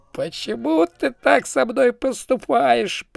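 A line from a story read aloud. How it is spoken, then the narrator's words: Moaning. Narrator (Russian): простонал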